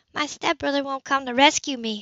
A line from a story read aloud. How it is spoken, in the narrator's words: said hoarsely, shocked